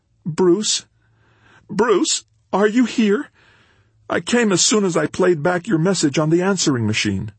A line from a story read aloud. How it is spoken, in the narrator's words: His voice cracked as he said